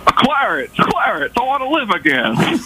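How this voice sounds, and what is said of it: Jimmy Stewart impression. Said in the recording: “your best impression ... Jimmy Stewart from It's a Wonderful Life”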